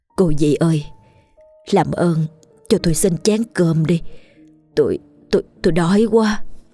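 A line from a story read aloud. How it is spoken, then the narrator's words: Trembling voice. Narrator (Vietnamese): cất giọng run run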